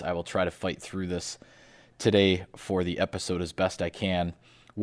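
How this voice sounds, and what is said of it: Sick, under-the-weather voice. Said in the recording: “I am a little bit under the weather. I apologize for my voice.”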